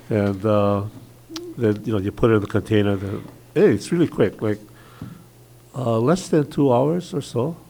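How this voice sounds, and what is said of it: Stuffy, congested voice. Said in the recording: “I have a cold. ... I'm still kind of stuffy”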